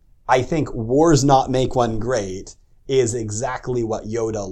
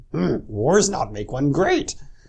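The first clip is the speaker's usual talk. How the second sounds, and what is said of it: Bad Yoda impression. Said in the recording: “bad Yoda impression”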